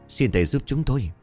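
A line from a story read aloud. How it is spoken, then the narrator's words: Trembling voice. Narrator (Vietnamese): Ông Hưởng giọng run rẩy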